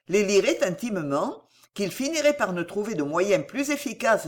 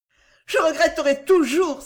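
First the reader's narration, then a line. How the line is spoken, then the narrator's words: Sobbing cry. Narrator (French): s'écria Henriette en sanglotant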